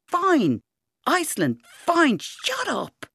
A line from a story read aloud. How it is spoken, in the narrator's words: it was all Rowan could do to shout